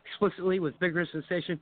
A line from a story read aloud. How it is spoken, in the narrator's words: I scream silently